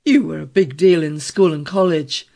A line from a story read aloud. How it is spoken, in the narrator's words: Traynor interrupted harshly